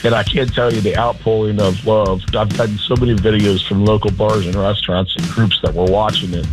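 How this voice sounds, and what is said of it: Hoarse, lost voice. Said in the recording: “Still a little hungover, and I've lost my voice”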